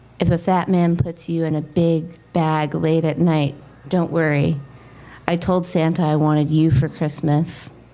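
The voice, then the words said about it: Sultry, smooth radio-announcer voice. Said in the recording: “in my sexy radio voice”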